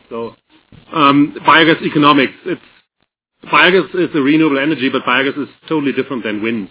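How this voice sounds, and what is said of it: Voice wavering from a cold. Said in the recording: “My voice is probably not really, it's probably going up and down. I'm fighting with a cold.”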